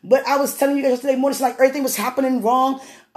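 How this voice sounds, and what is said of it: Very fast speech. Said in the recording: “I'm talking really fast.”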